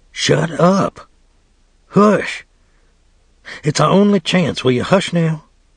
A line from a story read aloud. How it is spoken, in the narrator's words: the boy hissed